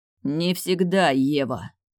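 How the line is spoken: Hissed in ear. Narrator (Russian): прошипел он мне на ухо

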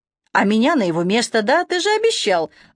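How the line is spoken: Joyful interjection, broken off. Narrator (Russian): радостно встрял Серега, но осекся под бешеным взглядом дядюшки

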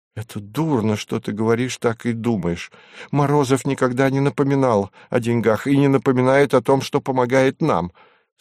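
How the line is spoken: Hurt exclamation. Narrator (Russian): с обидой в голосе воскликнула она

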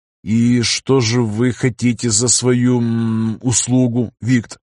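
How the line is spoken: Plain, after a pause. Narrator (Russian): спросил он наконец

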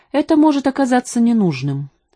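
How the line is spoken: Plain. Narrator (Russian): сказал Джой

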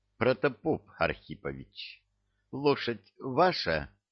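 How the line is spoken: Soft inquiry. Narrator (Russian): мягко осведомился комбат

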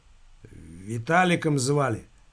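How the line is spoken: Young man, gloomy remark. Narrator (Russian): мрачно заметил парень

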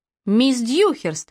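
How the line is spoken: Alarmed exclamation. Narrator (Russian): встревоженно воскликнула

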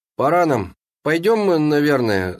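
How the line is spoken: Slurred mumbling. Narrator (Russian): заплетающимся языком промямлил

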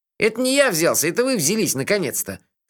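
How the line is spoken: Snorted. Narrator (Russian): фыркнул Мелифара

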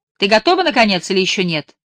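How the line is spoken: Sharp scolding shout. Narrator (Russian): прикрикнула она на Лайлу

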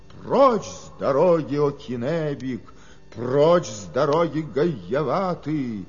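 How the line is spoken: Fearless loud shout. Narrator (Russian): бесстрашный Гайевата, громко крикнув, так сказал им

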